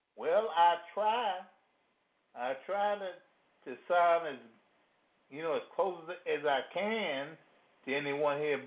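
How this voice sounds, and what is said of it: Louisiana Southern American accent. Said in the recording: “They don't like my accent... the Louisiana just come out”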